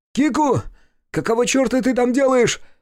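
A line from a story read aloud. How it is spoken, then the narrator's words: Shouting. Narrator (Russian): закричал он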